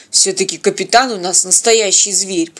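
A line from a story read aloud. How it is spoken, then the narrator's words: Grumbling. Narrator (Russian): проворчал Теодор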